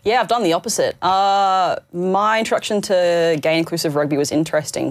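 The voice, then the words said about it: Australian (Queensland) accent. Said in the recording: “You're from Queensland, as yes. We can automatically decipher from the accent.”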